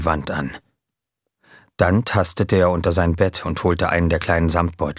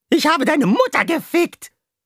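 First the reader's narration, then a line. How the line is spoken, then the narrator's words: Shrieking into an ear. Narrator (German): kreischte Jamie ins Ohr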